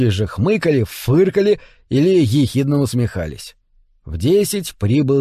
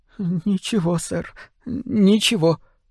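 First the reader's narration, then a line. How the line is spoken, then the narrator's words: Timid, frightened. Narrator (Russian): робко заверил Тримбл, похолодев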